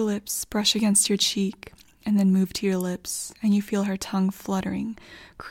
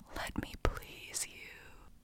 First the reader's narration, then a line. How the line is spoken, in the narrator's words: you can feel her warm breath in your ear as she whispers